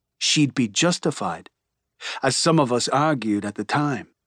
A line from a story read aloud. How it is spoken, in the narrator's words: she says grimly